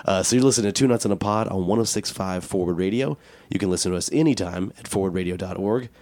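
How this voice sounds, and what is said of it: Raspy, sultry voice from cold. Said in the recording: “my voice is a little raspy than usual. Sultry ... Sexy cold voice.”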